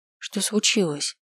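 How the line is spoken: Quiet question. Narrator (Russian): спросила тихо

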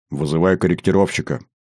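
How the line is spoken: Grumbled, guarded. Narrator (Russian): буркнул Никифоров, не спеша радоваться

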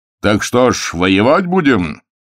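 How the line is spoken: Shouting over noise. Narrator (Russian): крикнул Прокунин, перекрывая общий шум

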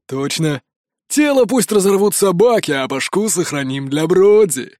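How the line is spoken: Loud guffaw. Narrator (Russian): захохотал рыжий

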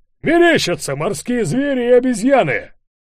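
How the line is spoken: Laughing through megaphone. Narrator (Russian): Человек с леди Майн расхохотался в мегафон

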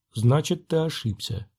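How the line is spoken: Quiet. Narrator (Russian): тихо промолвил он

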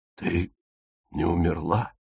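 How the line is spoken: Hoarse croak. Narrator (Russian): прохрипел он

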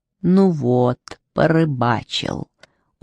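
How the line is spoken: Purring voice. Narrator (Russian): услышали они мурлыкающий голос

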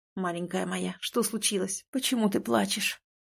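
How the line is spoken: Tender whisper. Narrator (Russian): Зашептал он

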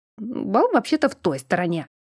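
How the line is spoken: Grumbling. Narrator (Russian): проворчал Анатариус

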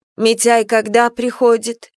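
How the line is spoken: Plain. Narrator (Russian): спросила Марфа Настю

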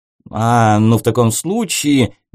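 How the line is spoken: Uncertain. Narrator (Russian): неуверенно сказал Оливер

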